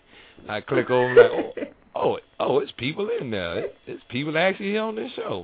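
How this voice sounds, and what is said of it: Thick accent. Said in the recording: “you have a thick accent”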